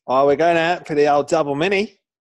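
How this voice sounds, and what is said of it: Exaggerated Australian accent. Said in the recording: “how good does double mini sound in an Australian accent?”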